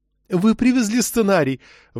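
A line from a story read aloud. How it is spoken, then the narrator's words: Excited babbling. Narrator (Russian): восторженно залепетала Уивер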